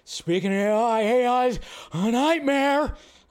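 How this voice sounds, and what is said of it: Imitates another person's voice. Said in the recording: “my Nicolas Cage impression. I'm sorry that it wasn't that great”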